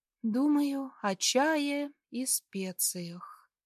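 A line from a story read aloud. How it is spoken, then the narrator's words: Sleepy reply. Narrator (Russian): отвечаю сонно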